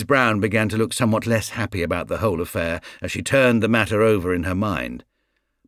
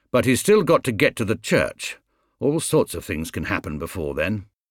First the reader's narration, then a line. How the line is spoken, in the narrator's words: Brown grimly